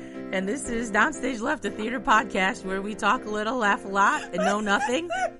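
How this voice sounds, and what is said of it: Hoarse, worn-out voice. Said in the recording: “my voice is pretty shot ... get ready for a fun audio ride of this voice”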